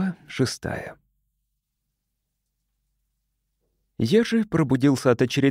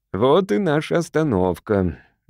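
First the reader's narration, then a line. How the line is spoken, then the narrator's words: Cheerful father. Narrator (Russian): весело сказал папа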